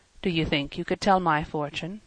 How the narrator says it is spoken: he murmured

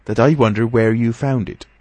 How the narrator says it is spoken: said Mrs

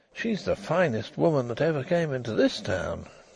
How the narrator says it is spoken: he murmured

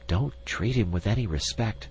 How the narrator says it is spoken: whispered Miss Chim to the insect

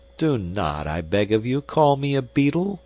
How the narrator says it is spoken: exclaimed our hero, rather peevishly

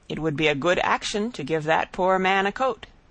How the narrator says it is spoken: said the King

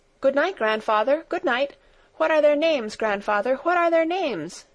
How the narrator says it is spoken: she called out as she ran after his retreating figure and the goats

